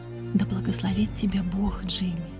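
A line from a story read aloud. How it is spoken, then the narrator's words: Whispering. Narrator (Russian): прошептала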